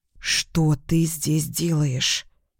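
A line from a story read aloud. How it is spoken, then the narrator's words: Hissing through teeth. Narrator (Russian): прошипела я сквозь зубы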